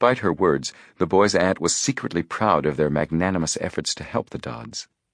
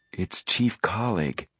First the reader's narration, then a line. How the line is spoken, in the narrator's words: he whispered to Frank